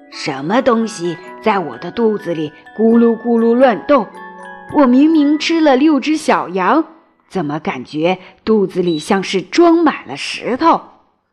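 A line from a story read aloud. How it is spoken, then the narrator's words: Muttering. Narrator (Chinese): 狼嘀嘀咕咕地说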